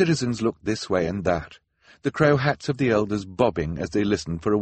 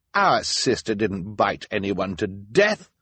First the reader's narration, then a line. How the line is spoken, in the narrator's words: Violet said indignantly